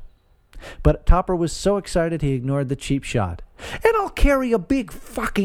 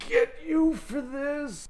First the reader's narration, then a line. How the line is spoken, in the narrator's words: the golfer moaned